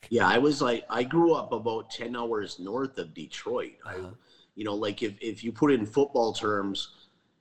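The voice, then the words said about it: Upper Midwest accent, a bit Canadian. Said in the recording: “your accent really stands out to me and it's always been really striking ... it is a bit Canadian”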